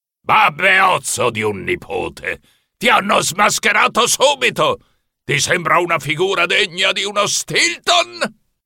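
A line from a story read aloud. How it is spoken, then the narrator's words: Thundering knight. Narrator (Italian): tuonò il cavaliere medievale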